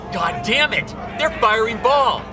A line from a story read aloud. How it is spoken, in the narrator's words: A Patriot officer yells out